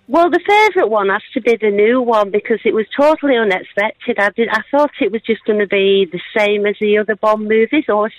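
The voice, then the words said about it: Northern English accent. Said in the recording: “I feel like I'm back home in the north of England with your accent”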